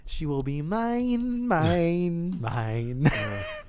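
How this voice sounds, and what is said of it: Imitates a movie character's voice. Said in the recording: “that sounds really accurate in my own ears ... It sounds like I'm actually doing his voice.”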